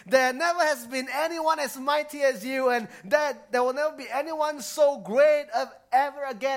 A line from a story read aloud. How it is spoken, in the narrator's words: cried